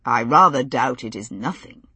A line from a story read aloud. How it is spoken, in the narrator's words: he said dryly